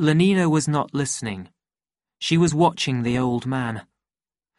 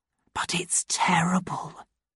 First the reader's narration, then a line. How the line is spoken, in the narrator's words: Lenina whispered